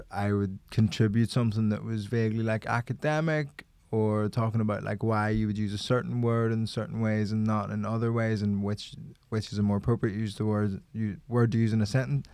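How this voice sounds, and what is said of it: Regional English Croydon accent. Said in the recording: “People hear a regional accent, and yours is the region of fucking Croydon.”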